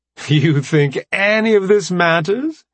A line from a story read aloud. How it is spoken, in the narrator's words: Eon barked a laugh